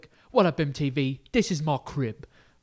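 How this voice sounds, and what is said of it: Put-on British accent. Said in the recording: “you said, what's up, MTV, in a British accent”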